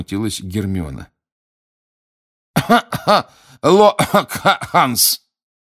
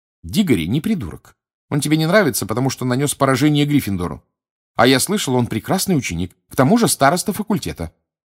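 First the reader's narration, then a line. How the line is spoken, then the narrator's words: Authoritative tone. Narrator (Russian): непререкаемым тоном проговорила Гермиона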